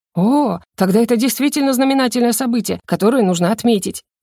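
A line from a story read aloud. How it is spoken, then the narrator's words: Exclaimed. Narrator (Russian): воскликнул Дерек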